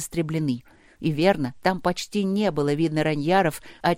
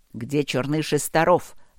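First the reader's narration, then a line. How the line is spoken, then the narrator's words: Sharp question, bear-king. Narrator (Russian): резко спрашивал король-медведь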